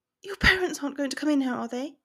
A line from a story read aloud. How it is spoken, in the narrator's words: She asked urgently